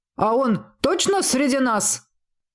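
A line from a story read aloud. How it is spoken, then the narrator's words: Barked loudly. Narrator (Russian): гаркнул гоблин в короткой серой хламиде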